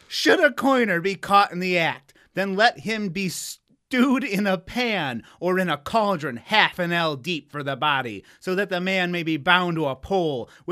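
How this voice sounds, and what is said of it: Attempted British accent, sounds Australian. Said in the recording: “You want me to do it in a British accent? ... What the fuck is that? ... That's like Australian”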